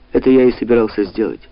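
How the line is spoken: Dry. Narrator (Russian): сухо сказал Лело

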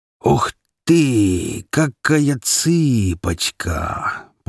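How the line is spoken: Drawling heavy hunchbacked man. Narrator (Russian): протянул похожий на обезьяну уродливый негр-горбун под 300 фунтов весом

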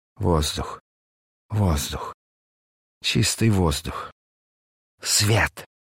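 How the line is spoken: Rapturous moaning. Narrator (Russian): восторженно стонал он

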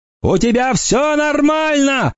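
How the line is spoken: Shouted. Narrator (Russian): крикнул он

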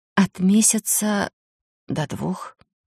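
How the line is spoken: Hoarse whisper. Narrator (Russian): прошептала осипшим голосом

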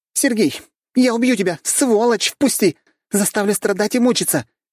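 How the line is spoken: Shouting. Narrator (Russian): кричала Машка

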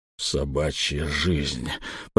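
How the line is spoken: Strongman speaking through teeth. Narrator (Russian): процедил силач

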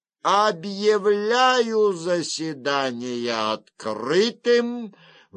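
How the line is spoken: Sudden shrill widow's voice. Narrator (Russian): внезапно раздался визгливый голос вдовы

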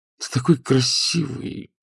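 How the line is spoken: Flirtatious cooing. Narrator (Russian): проворковал Матео, кокетливо

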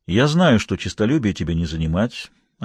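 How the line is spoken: Calm. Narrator (Russian): ответил он спокойно

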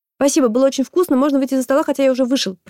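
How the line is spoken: Rapid rattling speech. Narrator (Russian): протараторил я

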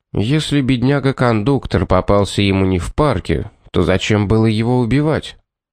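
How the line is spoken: Calm question. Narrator (Russian): Спокойно задал вопрос Пит

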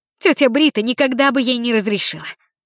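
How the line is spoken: Indignant exhale. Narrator (Russian): Леопольд возмущенно выдохнул

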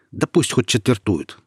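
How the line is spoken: Snorting. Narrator (Russian): хмыкнул Роман

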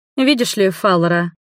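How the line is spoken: Utterly detached tone. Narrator (Russian): Абсолютно безучастным тоном заговорила эльфийская принцесса

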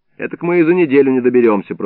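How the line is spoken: Grumbling. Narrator (Russian): проворчал Илларион

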